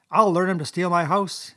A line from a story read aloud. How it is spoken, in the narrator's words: he cried